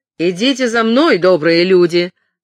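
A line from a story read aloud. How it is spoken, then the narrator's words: Shouted. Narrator (Russian): крикнул Ричард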